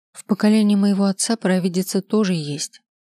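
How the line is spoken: Sighing. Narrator (Russian): вздохнула я

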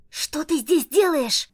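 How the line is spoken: Whispered yell. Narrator (Russian): Завопила генерал Грейнджер, правда шепотом

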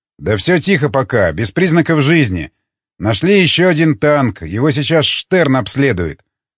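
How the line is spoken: Plain. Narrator (Russian): ответил

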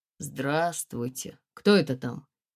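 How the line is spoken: Mumble. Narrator (Russian): пробормотал

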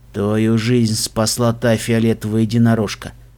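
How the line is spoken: Quiet, restraining murderous urge. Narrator (Russian): тихо проговорил Даггер Стаб, борясь с желанием воткнуть лезвие в сердце врага

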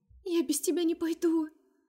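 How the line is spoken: Pitiful sobbing. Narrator (Russian): всхлипывает жалобно

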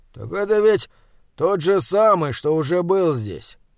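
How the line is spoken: Tired, with a belch. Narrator (Russian): рыгнув устало, сказал Вапслин

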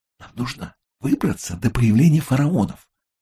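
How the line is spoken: Whispered. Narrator (Russian): шепнула Римма

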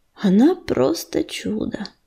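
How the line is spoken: Mutter. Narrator (Russian): пробормотал ежевика

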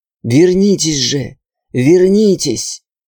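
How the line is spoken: Soundless rasp. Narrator (Russian): Беззвучно хрипело горло

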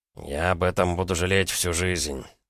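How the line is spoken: Through gritted teeth. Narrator (Russian): процедил Чилищев

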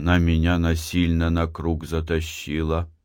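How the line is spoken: Barely audible. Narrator (Russian): чуть слышно произнес он

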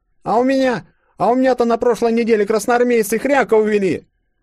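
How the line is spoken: Shouting, thin boy. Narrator (Russian): Выкрикнул худенький паренек

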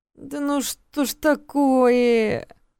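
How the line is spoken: Moaning. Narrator (Russian): простонал Алекс

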